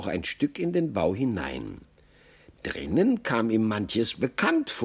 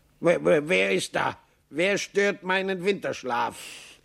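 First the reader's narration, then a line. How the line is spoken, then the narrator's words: Grumpy familiar call. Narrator (German): eine Stimme, die Maxl zu kennen meinte, rief brummig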